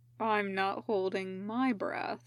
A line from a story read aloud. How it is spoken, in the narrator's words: Raito muttered